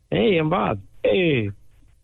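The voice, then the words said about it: Fonzie impression. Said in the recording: “do a Fonzie impersonation”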